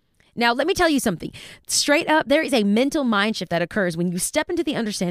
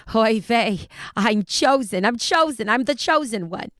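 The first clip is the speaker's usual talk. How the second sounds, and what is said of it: Put-on broken Yiddish Bronx accent. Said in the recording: “in my broken Yiddish Bronx accent”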